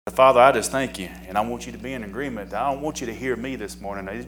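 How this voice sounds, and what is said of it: Slight Southern US accent. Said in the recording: “a little southern voice, accent”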